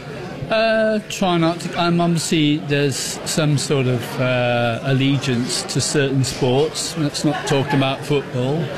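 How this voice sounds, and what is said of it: English accent. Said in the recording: “you got the English accent over there”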